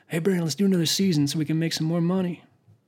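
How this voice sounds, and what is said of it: Scary character voice. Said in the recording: “It's a really scary voice.”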